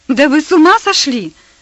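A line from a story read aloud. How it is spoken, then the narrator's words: Exclamation. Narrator (Russian): Воскликнула Персида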